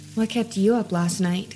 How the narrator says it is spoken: she quietly asked me

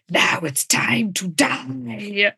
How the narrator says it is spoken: Margot hisses in her face

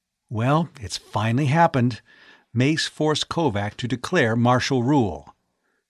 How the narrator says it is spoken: he said in an exultant undertone

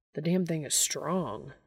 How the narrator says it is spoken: Dean mutters

